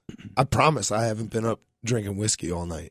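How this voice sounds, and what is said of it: Raspy voice. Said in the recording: “You hear this raspy voice?”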